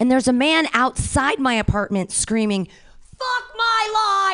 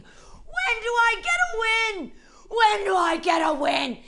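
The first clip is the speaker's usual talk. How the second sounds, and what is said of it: Screaming. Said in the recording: “I start screaming ... I'm screaming. I'm screaming”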